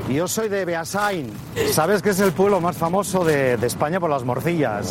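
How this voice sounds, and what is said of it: Strong Spanish accent, unchanged. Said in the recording (Spanish): “Veinte años en Nueva York y parece que ... llegó ayer y si no me creen, escuchen su acento.”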